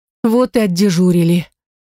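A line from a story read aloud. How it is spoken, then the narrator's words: Sigh. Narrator (Russian): вздохнула Элис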